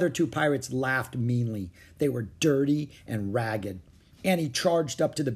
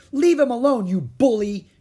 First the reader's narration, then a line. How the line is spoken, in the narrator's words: she cried